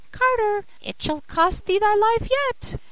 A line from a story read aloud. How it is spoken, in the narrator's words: the sparrow cried